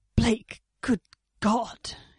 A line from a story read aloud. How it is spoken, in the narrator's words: he gasped